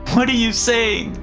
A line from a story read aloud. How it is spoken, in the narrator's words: She wailed